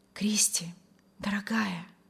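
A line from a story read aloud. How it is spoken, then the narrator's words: Delighted whisper. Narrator (Russian): восторженно шептал Вильям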